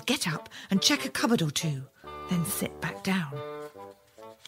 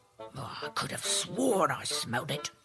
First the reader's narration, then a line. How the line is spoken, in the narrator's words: The ogre kept muttering to himself